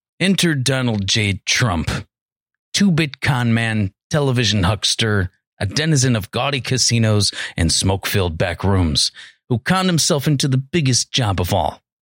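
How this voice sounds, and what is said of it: Imitates another person's voice. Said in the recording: “my best impression of him, because it's fucking spot on”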